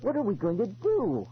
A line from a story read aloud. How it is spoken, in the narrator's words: I cried